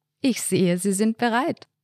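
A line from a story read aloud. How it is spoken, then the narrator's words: Warm laughing, joking. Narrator (German): Albrecht lachte ein warmes Lachen und sagte scherzend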